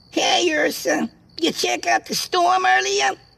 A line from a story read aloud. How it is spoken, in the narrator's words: the squeaky voice of Jimmy shouted